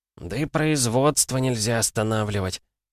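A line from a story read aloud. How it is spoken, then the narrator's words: Quieter. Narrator (Russian): уже более тихо произнес местный инженер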